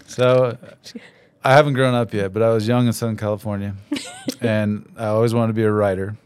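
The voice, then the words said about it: Slow, smooth radio-announcer voice. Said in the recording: “I'll talk in slow, pear-shaped tones ... Get my NPR voice on.”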